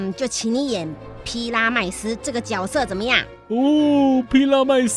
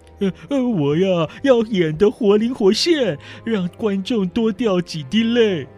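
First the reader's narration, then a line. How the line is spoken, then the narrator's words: Happy, smiling. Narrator (Chinese): 被推派为主角的波顿这下可高兴了，满脸笑容地说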